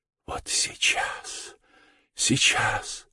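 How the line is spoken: Delirious whisper. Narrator (Russian): шептал он точно в бреду

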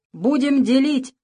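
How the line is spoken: Shouting syringe. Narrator (Russian): крикнул шприц

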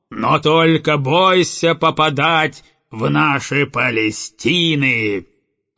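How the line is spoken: Howling. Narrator (Russian): Взвыл угольщик

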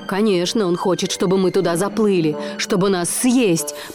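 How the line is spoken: Shouted. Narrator (Russian): прокричал Марлин

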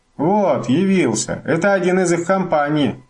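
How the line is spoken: Shouted. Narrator (Russian): крикнул

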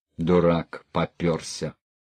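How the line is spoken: Grumbling. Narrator (Russian): ворчал он

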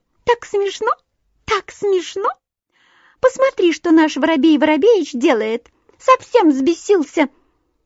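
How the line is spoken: Thin tiny laughing voice. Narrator (Russian): Синичка засмеялась тоненьким-тоненьким голоском

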